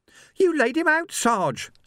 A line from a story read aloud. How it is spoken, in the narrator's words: Sam squeaked